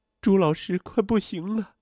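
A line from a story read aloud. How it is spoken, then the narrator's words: Choked with sobs. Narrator (Chinese): 杨小荣哽咽着对李林说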